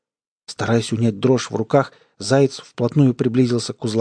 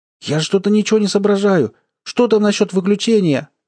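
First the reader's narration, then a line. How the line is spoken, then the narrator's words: Shouting over inner voice. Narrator (Russian): закричал Айгон, пытаясь перекричать голос в голове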